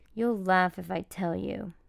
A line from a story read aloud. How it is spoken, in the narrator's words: she mumbled